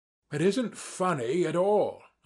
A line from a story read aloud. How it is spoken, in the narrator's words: I cried to Ferfitchkin, more and more irritated